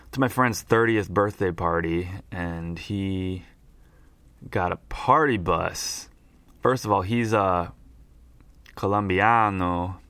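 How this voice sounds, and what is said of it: Hoarse, rough voice. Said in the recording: “my voice is all hoarse because I'm hungover right now”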